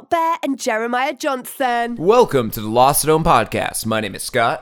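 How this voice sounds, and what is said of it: Deep announcer-style radio voice. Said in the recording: “that was my radio voice ... this is gravitas”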